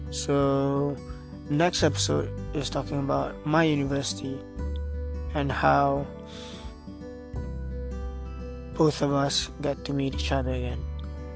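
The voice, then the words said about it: Young, immature-sounding voice. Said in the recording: “my voice is not clear or my voice is a bit of a childish ... my matured voice that doesn't sound matured”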